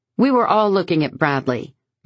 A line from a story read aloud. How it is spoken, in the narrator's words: says sharply